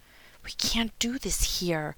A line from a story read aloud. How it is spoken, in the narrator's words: hissed